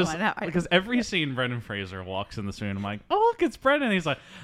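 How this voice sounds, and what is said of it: Usual voice. Nothing is said of it.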